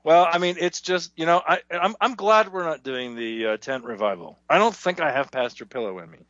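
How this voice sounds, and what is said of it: Slightly hoarse voice. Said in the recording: “I'm going a bit hoarse. I've been typing so madly, I've lost my voice.”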